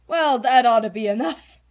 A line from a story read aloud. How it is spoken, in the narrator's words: said with a sigh after his lively exertion